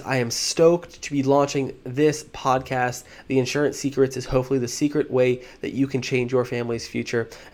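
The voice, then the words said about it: Excited, fired-up energetic voice. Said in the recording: “I'm so fired up. You can hear it in my voice.”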